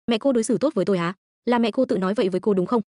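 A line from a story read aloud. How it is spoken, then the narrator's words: Laughing. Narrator (Vietnamese): Tôi bật cười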